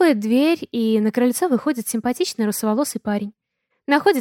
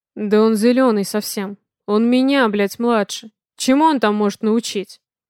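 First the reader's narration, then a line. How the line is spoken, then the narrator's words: Spoken through gritted teeth. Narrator (Russian): Цедит сквозь зубы Дима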